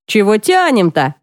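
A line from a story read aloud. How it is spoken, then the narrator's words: Cheerful booming. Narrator (Russian): весело грохочет Ларс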